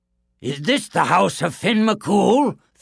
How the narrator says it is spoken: thundered Cuchulainn

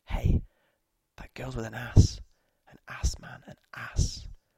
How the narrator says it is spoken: the people around us would be turning discreetly from the screen to us, whispering

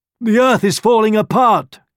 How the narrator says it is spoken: cried a rhino

